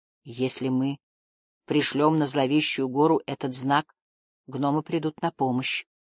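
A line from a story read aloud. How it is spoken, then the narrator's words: Quiet. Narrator (Russian): тихо сказал он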